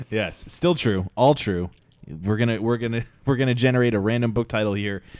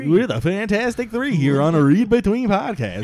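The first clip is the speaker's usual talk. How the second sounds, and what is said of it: Shock jock radio voice. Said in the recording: “my stupid shock jock radio voice”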